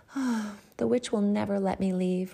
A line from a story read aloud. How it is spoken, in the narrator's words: Rapunzel sighed